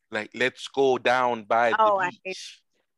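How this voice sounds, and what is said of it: Fake Jamaican accent. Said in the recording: “you have a Jamaican accent? A fake Jamaican accent?”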